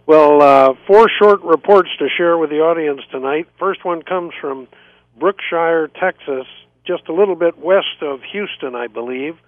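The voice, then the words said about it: Hoarse voice. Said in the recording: “I'm a little hoarse tonight. I have a sore throat”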